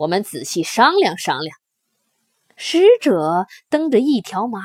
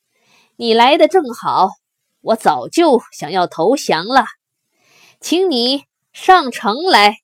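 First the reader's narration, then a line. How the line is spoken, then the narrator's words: Sneering laugh. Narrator (Chinese): 耿恭冷笑几声说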